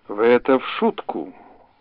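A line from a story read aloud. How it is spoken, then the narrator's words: Forced calm. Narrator (Russian): стараясь говорить спокойно, произнес Андрей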